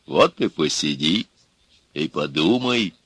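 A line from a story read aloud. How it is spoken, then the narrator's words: Calm. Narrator (Russian): Спокойно молвил Илья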